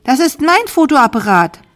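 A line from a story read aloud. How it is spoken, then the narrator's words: Called out. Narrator (German): rief Sarah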